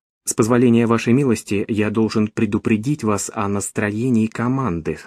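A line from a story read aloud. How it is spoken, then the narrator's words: Plain. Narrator (Russian): сказал Машаду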